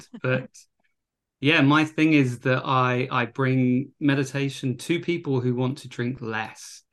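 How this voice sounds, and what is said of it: British accent. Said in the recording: “I'm originally from the UK, if anyone's getting confused about my accent.”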